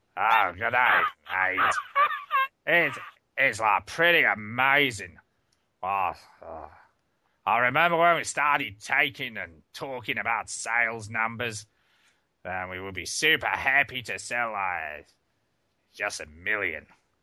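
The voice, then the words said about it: Put-on drunk New Zealand accent. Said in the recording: “a drunk New Zealander ... this is probably going to sound more Australian than New Zealand”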